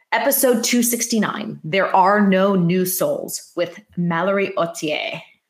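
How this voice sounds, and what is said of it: Put-on French accent. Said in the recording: “Do you like my French accent?”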